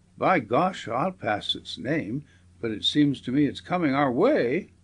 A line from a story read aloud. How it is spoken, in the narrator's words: cried Bill